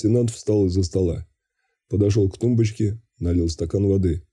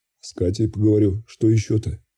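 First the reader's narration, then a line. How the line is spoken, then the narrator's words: Calm reply. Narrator (Russian): спокойно ответил я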